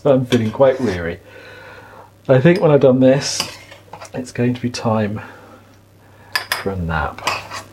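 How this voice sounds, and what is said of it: Voice going hoarse, weary. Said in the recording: “I'm starting to lose my voice, it feels.”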